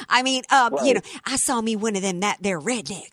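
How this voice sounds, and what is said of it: Put-on Southern woman's accent. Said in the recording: “I imagine it a woman using a Southern accent.”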